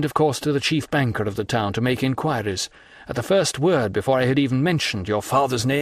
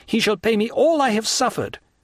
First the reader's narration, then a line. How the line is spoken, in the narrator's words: cried the young man